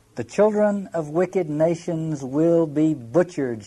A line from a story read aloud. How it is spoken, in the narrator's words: she cried in a loud voice